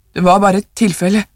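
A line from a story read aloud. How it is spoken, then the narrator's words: Old man stammering. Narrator (Norwegian): stammet den gamle mannen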